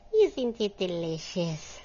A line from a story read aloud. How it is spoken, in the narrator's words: sighed Odile